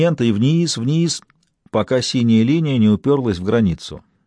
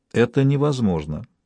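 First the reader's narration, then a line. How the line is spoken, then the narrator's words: Quietly said. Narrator (Russian): тихо произнесла Туссен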